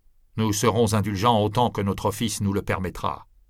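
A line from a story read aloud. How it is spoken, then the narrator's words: Plain. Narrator (French): dit l'inquisiteur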